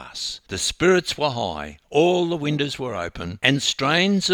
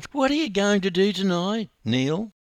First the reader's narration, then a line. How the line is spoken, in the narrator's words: cooed a sweet 16-year-old